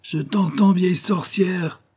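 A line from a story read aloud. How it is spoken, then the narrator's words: Exclaiming. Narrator (French): s'écria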